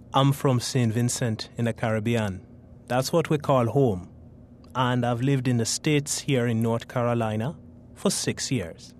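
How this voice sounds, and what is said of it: Caribbean St. Vincent accent, musical. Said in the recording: “I wasn't aware of my accent until I came here ... growing up in St. Vincent ... many people commented on my accent ... It's so musical”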